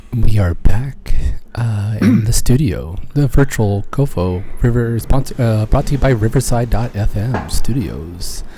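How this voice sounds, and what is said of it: Smooth sexy radio announcer voice. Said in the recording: “ASMR time, ... sexy radio voice”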